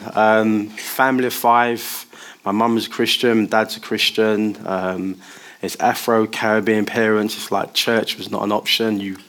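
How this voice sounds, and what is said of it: East London English accent. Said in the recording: “Where do you think I'm from with this accent? ... I grew up in the East End of London.”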